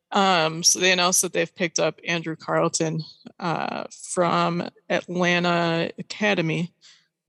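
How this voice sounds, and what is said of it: Strained, failing voice. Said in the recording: “losing my voice”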